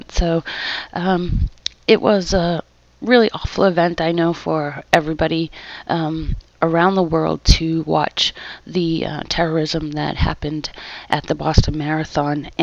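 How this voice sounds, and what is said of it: Slight Massachusetts accent. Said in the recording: “I have a little bit of an accent, and that is definitely a Massachusetts accent.”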